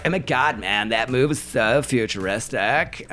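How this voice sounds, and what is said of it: Imitates another person's voice. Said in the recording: “Is that your Chris Sharma impression?”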